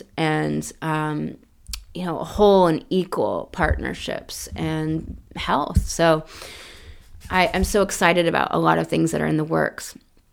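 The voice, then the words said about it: Sick, congested-sounding voice. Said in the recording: “I have a cold that just wants to kind of persist. You can tell in my voice.”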